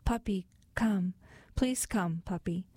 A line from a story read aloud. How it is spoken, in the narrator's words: her lower lip quivering, in a soft voice she called